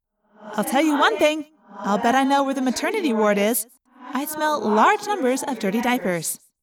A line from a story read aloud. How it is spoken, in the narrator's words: Rachel said